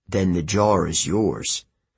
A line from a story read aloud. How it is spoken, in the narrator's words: Chiron said grimly